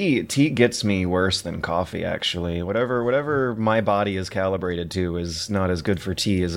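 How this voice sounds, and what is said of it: Usual voice. Nothing is said of it.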